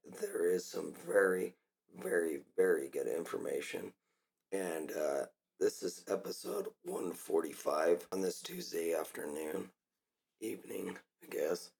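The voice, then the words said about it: Hoarse, nearly lost voice. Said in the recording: “I've lost my voice.”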